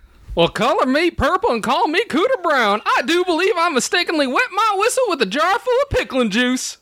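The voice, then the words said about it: Put-on redneck accent. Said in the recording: “the next one's redneck ... You're too good at that accent.”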